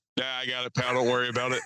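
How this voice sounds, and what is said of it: Extremely manly voice. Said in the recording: “in a extremely manly voice”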